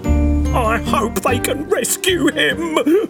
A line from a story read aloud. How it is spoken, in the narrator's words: cried Rudolph with a shiver